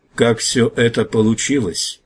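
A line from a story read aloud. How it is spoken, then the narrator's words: Muffled old man's question. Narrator (Russian): глухо спросил старый вождь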